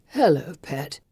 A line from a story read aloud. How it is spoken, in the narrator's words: calls in a drowsy voice